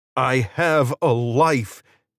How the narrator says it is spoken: Israel shouted

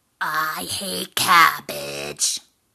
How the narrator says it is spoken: grumbled the troll

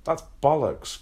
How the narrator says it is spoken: Craig explained, but exclaimed, almost spitting Spam all over himself

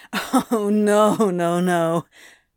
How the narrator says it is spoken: Crowley laughed mirthlessly

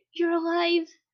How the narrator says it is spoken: Mina cried out

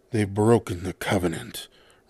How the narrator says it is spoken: Reagan growled

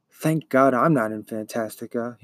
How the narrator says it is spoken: he muttered

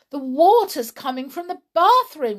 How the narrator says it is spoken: cried

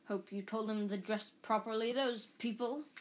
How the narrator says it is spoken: he snarled at once

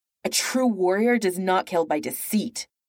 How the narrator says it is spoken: she spat

